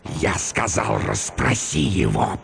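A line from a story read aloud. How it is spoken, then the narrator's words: Hissing. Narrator (Russian): прошипел он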